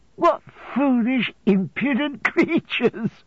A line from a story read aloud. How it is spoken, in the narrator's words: cried my mother, laughing and covering her face